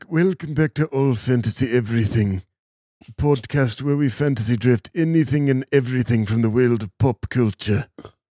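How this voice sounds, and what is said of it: Imitates another person's voice. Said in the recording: “my Prince Philip impression, which I've been workshopping for a while, and I think it's getting pretty good ... Let me see if I can call upon Prince Philip.”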